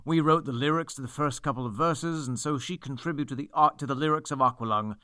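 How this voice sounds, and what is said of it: Clipped, pronounced, haughty put-on accent. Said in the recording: “How was my accent? ... It was actually pretty good. ... It's that like clipped, pronounced, haughty.”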